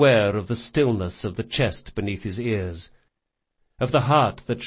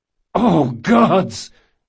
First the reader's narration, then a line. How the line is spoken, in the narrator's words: Jean cried